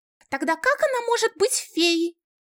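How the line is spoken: Shrill squeal. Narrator (Russian): взвизгнул Лоэли Лайнел

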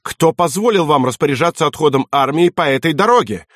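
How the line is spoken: Shouting. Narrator (Russian): выкрикнул

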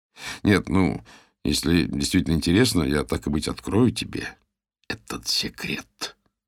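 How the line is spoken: Mysterious whisper. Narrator (Russian): прошептал я таинственным голосом

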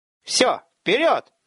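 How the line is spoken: Commander's roar. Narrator (Russian): взревел десятник

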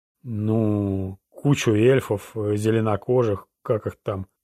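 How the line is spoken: Drawled. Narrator (Russian): протянул Сайрус

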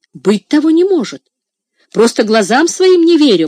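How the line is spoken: Exclaimed. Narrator (Russian): воскликнул кузнец

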